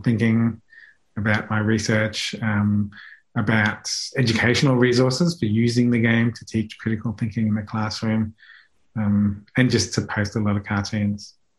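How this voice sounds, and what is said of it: Speaks with a pleasant accent. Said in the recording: “your beautiful accent”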